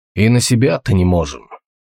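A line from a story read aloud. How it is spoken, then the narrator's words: Grumbled. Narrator (Russian): проворчал Толгрим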